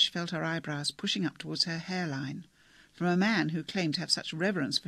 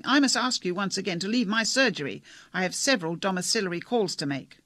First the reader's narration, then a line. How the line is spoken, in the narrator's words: Foskett, almost shouting